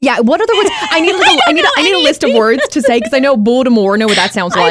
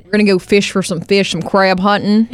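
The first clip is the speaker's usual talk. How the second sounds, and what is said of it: Put-on Baltimore Maryland accent. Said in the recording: “I also really enjoy the Maryland, like the Eastern Shore, Hagerstown, Maryland, Baltimore. That accent is so good.”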